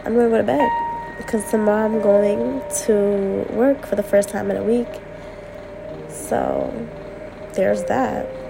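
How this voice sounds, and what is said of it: Sick, weird-sounding voice from a cold. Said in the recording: “my voice sounds weird ... I'm sick ... I'm getting over my cold”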